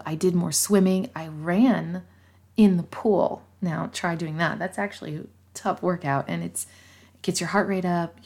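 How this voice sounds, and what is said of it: Quiet, hushed speaking. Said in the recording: “I'm trying to whisper a little bit ... I'm trying to not whisper, but be a little bit more quiet.”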